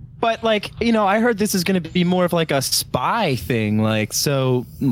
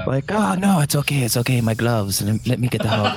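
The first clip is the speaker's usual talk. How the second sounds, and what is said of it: Put-on Mexican accent. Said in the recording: “Little Mexican accent.”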